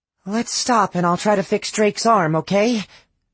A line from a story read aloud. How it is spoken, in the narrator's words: she pleaded